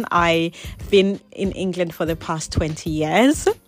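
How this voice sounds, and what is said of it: English accent. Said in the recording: “I moved to England when I was 12, which I'm sure you can tell from my accent.”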